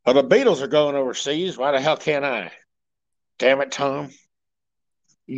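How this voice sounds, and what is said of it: Imitates another person's voice. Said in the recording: “my Elvis impersonation”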